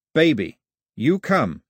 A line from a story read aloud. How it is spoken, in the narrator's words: he said, his voice as firm as the grip